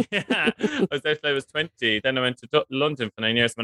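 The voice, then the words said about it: Irish Cork accent. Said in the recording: “I grew up in Cork, from the accent, like you can hear.”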